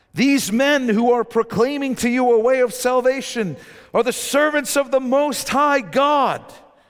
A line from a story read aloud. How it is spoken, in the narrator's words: she cried out